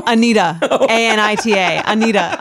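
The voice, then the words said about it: Long Island accent. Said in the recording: “That's my Long Island accent.”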